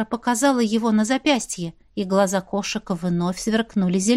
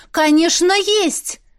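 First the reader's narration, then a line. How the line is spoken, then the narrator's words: Loud classroom-style answer. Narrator (Russian): Громко, как на уроке, ответила Вера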